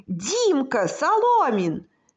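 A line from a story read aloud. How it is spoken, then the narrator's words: Distant shout. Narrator (Russian): закричал кто-то издалека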